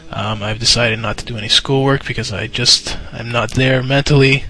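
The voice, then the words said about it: Sick-sounding voice. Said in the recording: “I'm sick from work. You can probably hear it in my voice.”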